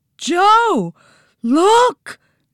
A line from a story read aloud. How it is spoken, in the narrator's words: Nancy yelped